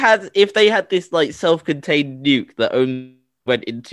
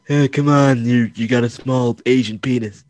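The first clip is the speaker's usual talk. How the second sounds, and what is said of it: Imitates another person's voice. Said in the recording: “that was such a good impersonation.”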